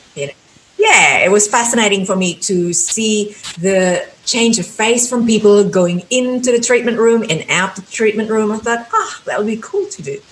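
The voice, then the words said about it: Australian accent. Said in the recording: “it sounds like you have an Australian accent”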